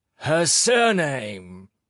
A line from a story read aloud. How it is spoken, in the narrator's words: He roared, and suddenly he was wild and terrifying